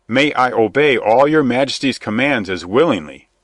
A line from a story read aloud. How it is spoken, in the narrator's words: cried the new Earl of Huntingdon